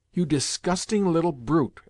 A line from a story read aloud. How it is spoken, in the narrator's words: exclaimed Woloda